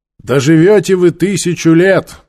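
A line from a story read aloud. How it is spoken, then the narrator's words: Loud, carrying. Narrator (Russian): громко сказал он, так, чтобы в ближайших рядах все могли слышать каждое слово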